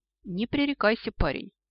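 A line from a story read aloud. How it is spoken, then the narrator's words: Sighing. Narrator (Russian): вздохнул Каутинус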